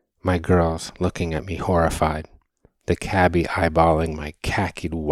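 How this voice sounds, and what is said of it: Usual voice. Nothing is said of it.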